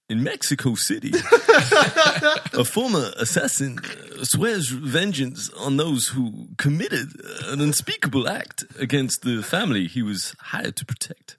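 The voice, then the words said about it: Imitates another person's voice. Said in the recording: “It sounded like John Travolta doing a Christopher Walken impression... It did go a bit Travolta.”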